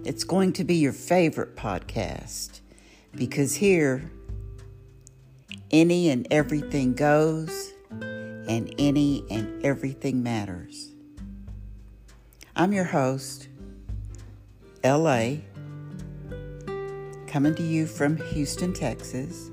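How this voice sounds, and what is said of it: Southern American drawl. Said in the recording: “I have a southern drawl, I already know that I have a southern drawl”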